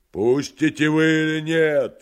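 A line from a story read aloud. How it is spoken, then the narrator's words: Terrifying shout. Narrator (Russian): страшным голосом крикнул поэт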